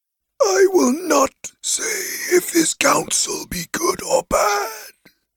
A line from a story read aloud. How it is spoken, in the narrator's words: croaked Rock